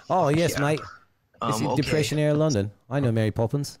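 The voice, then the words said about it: Put-on Depression-era London accent. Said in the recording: “this is like some fucking Depression era London shit right here. Let's hear that fucking accent”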